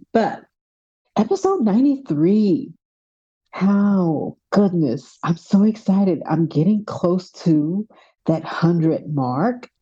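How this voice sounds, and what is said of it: Texas accent. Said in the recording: “My Texas accent is live and well... I'm actually from New York, but you would never know by how I talk”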